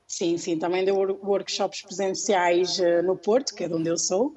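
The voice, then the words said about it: Porto accent, northern Portugal. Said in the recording (Portuguese): “sotaquezinho ... não dá para disfarçar ... eu também sou do Porto, por isso conheço bem o meu sotaque”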